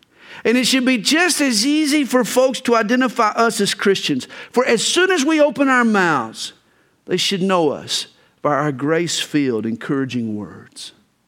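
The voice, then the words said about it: Southern American accent. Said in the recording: “I'm from the South ... Once I open my mouth and a Southern accent comes out, people know”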